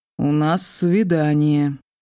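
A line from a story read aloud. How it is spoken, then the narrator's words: Gloomy, very resolute announcement. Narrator (Russian): мрачно и как-то очень решительно объявил Уттер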